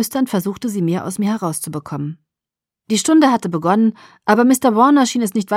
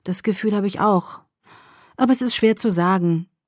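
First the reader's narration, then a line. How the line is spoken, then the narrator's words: Sighing. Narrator (German): ich seufzte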